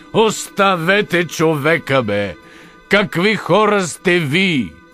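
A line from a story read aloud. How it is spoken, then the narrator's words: Shouting. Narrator (Bulgarian): извика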